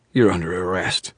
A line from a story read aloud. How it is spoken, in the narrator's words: she wheezed